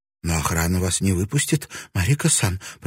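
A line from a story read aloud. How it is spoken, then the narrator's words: Frightened babbling. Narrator (Russian): пролепетала напуганная Садзука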